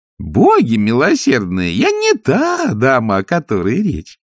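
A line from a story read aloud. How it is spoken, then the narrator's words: Old nanny laughing. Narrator (Russian): засмеялась нянюшка Яг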